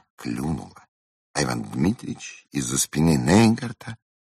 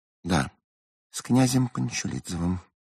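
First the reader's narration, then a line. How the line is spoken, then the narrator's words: Surprisingly calm answer. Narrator (Russian): на изумление спокойно ответила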